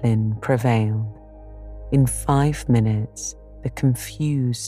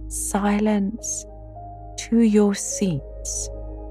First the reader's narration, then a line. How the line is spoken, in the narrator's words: Miss Miller called out